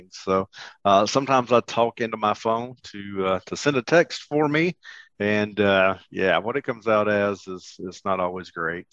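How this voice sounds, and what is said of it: Southern American accent. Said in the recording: “I do realize that I have a Southern accent.”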